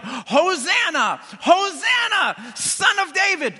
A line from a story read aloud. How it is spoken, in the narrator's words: yelling